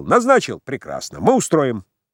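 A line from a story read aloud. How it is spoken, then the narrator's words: Raging, laughing young man. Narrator (Russian): Молодой бушевал и хохотал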